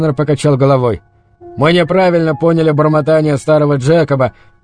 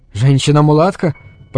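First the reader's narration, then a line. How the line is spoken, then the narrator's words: Fearful whisper. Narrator (Russian): прошептал Грисвелл, предчувствуя новое ужасное открытие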